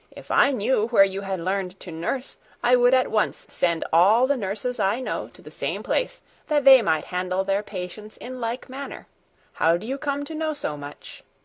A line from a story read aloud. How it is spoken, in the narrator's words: she exclaimed